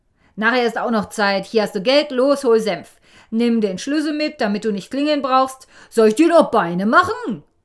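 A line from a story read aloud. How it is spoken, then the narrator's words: Blustering. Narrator (German): Der Vater ... polterte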